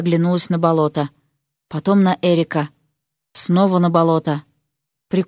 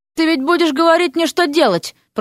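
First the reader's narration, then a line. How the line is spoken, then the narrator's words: Moaning. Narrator (Russian): простонала она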